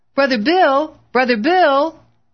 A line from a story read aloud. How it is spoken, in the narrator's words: knocked frantically on the door, calling